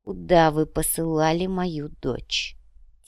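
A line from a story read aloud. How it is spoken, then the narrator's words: Quiet question. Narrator (Russian): тихо спросил Манан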